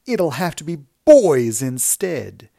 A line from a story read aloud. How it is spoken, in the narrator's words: shouted